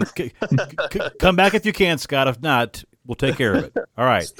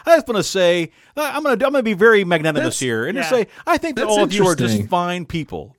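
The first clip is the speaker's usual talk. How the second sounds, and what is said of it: Imitates another person's voice. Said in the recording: “This is my Vivek Ramaswamy. This is my impersonation of him.”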